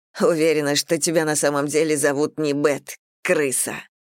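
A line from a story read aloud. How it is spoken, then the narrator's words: Scornful snort. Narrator (Russian): фыркнула Мэгги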